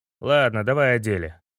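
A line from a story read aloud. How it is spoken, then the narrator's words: Grumbled. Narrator (Russian): пробурчал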